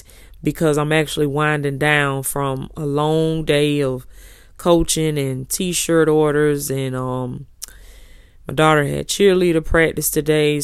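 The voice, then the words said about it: Slightly raspy, not smooth voice. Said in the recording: “my voice gonna sound a little raspy. Okay, gonna sound a little, it ain't gonna be all that smooth.”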